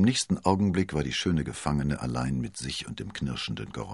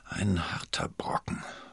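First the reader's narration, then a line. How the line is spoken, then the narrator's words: Murmured. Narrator (German): murmelte sie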